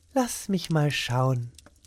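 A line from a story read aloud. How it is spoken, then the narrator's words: Gentle voice. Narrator (German): sagte mit sanfter Stimme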